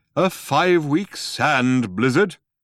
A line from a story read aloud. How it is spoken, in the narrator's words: said Deep Thought haughtily